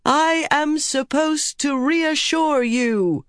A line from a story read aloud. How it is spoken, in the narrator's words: Elaine shouted to the men